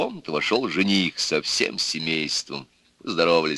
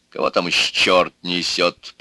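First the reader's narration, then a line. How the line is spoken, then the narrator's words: Grumbling. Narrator (Russian): проворчал отец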